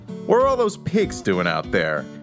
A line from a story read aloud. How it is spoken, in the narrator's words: he yells to tour manager Peter Rudge, loud enough for the cops to hear